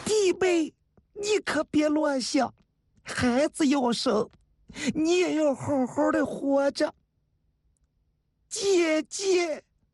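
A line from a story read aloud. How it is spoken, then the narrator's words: Crying. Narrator (Chinese): 菊花哭了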